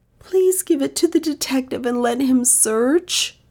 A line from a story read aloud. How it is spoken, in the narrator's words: she pleaded